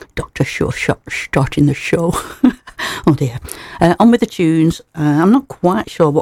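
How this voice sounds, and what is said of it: Usual voice. Nothing is said of it.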